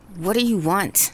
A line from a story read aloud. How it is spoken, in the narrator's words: Tia asks, frantic and angry, her voice shaky